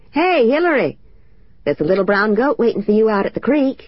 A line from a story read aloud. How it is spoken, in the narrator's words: Tom passed us in his truck and shouted